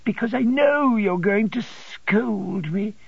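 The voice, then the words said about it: Piteous, pleading voice. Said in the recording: “in a piteous voice.”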